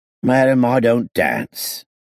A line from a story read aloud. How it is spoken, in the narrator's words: the kid answered lazily